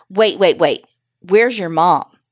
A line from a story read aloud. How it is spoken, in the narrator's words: His voice was gruff